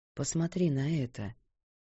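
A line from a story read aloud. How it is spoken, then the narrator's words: Quiet. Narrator (Russian): тихо произнес он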